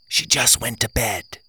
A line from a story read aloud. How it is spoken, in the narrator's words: I whispered